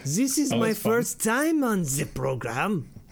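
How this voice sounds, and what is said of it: Bad put-on German accent. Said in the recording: “I'm gonna do like a bad German accent like Brian James does.”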